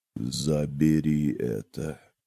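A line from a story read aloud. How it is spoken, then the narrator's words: Even tone, near whisper. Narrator (Russian): сказал он ровным тоном, почти шепотом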